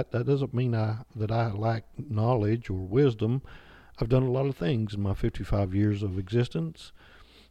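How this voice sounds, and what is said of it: Southern West Virginia accent. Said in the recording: “I do have an accent. I'm from southern West Virginia”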